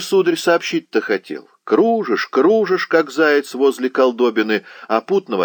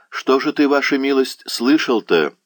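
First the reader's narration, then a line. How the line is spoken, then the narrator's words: Plain. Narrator (Russian): спросил пан Ян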